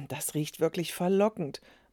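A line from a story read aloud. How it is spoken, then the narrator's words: Murmured. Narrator (German): murmelte die Nachbarin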